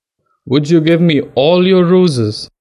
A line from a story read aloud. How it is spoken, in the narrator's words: asked